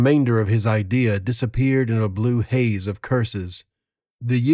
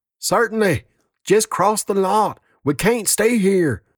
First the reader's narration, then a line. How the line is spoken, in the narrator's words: screamed the lieutenant